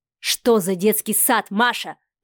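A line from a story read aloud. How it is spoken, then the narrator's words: Growl. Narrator (Russian): прорычал Адмиралов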